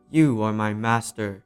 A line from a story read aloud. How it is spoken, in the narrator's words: boomed the genie